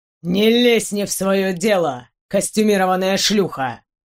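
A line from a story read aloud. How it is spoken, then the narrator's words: Growl, sharp Roman accent. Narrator (Russian): На отличном итальянском с резким римским акцентом прорычал мужчина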